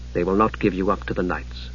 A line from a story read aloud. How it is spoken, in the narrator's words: she said softly